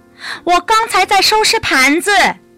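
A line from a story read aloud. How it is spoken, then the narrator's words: Loud answer. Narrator (Chinese): 安雅大声回答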